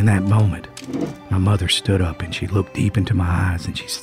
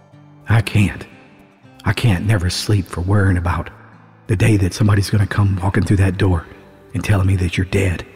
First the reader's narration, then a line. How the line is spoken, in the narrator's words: she said